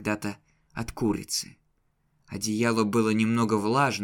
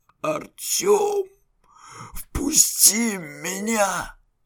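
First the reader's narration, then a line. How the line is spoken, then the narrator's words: Hoarse voice. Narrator (Russian): раздался хриплый голос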